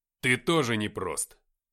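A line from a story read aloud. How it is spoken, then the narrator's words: Snapped retort. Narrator (Russian): огрызнулся я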